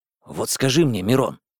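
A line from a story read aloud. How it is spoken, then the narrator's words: Whispered question. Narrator (Russian): шепотом спросил Витя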